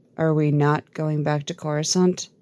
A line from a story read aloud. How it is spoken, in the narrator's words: Wix asks quietly